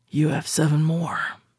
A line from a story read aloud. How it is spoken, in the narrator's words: he muttered, slurring his words